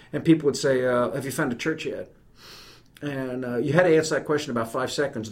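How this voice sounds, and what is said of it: New York accent. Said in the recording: “you can tell from my accent, I don't sound like I'm from here ... being an Irish Catholic from New York”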